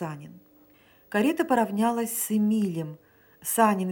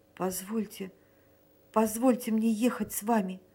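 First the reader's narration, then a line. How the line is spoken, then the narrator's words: Trembling babble. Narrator (Russian): пролепетал Эмиль трепетным голосом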